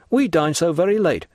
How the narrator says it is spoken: hastily interposed La Carconte

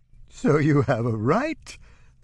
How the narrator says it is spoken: The madame heaved with renewed laughter

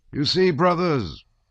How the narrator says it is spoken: said he, and all at once his voice changed

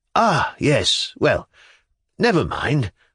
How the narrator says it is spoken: sighed

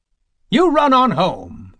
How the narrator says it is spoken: the woman cried suddenly, for she could not stand their eyes

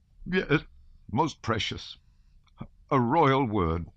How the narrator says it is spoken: said Count Rostov with a sob

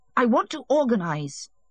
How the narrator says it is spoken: he answered hotly

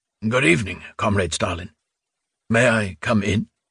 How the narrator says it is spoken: He had foolishly forgotten to clear his throat, so that his voice sounded hoarse and insufficiently obsequious

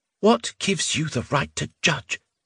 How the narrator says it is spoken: Sologdin kept his voice down to a muffled cry, as though he were being strangled

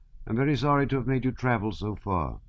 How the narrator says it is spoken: said he

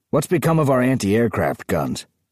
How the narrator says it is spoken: Arnold growled at him

